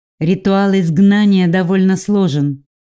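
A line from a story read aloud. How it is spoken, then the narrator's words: Reluctant grumble. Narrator (Russian): нехотя проворчала я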